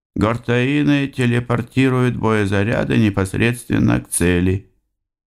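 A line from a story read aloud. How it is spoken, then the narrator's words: Indifferent tone. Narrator (Russian): мастер сообщил равнодушным тоном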